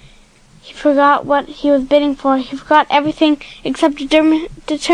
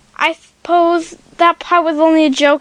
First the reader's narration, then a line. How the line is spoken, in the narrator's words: he said